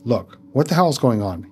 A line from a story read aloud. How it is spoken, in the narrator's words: he asked in a harsh tone